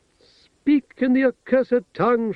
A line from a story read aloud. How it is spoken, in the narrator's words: shouted the princess from within